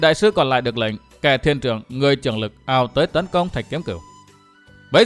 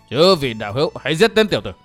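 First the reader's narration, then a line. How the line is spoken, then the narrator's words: Stern shout. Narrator (Vietnamese): Đạt ma thần tăng quát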